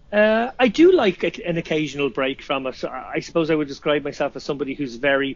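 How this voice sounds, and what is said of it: Irish accent. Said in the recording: “make fun of your accent ... people who don't understand the Irish accent”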